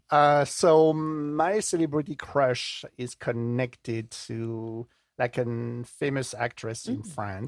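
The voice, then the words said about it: French-accented English. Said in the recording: “my accent is not from the Jersey Shore ... I have a little bit of French DNA”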